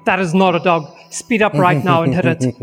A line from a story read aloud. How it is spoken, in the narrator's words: Trav starts yelling back over the radio